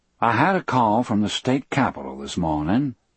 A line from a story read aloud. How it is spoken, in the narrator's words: said evenly